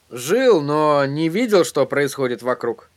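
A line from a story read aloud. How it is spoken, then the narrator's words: Grumbling mutter. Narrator (Russian): пробурчал Эдди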